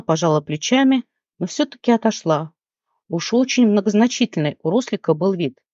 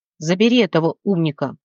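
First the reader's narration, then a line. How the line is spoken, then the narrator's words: Growling. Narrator (Russian): рыкнул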